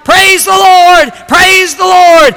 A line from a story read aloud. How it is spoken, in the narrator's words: she started shouting